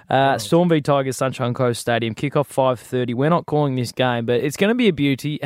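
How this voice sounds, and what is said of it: South Australian accent. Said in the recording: “I've got to change my South Australian twang.”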